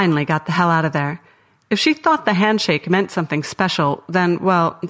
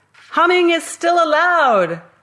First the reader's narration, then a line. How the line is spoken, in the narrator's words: shouted